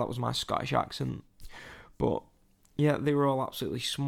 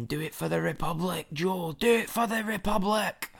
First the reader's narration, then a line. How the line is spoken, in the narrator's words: Some guy was shouting